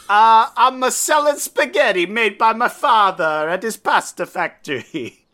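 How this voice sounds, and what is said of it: Put-on, unconvincing Italian accent. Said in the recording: “it's an Italian man on the Gold Coast ... That doesn't sound Italian.”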